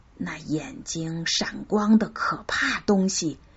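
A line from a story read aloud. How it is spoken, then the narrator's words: Hushed voice. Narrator (Chinese): 一个帮工便压低声音说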